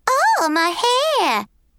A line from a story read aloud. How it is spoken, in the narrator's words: Scott squealed in a dead-on imitation of Brittany